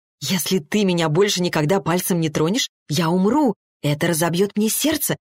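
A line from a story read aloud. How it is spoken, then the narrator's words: Whisper. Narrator (Russian): прошептала Арина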